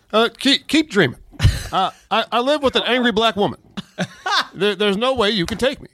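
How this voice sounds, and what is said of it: Good imitation of another person's voice. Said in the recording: “That's a good impression.”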